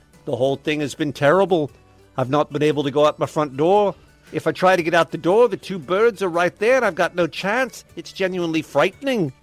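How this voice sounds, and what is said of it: Put-on accent that gradually slips. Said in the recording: “How'd the accent get worse? ... Started pretty good. ... Started at a 10, and at the end of that story was a 4.”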